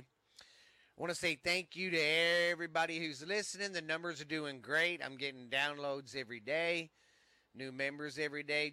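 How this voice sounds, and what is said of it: Stuffy, congested voice. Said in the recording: “I was feeling under the weather. My allergies are kicking my Rudy poop butt, man. So if I sound a little stuffy this morning”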